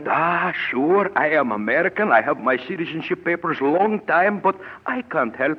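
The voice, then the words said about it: Russian accent. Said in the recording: “I speak with a Russian accent”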